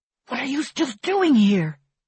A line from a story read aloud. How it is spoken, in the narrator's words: hisses